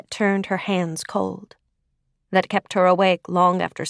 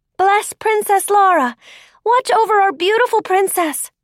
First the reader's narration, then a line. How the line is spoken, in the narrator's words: they shouted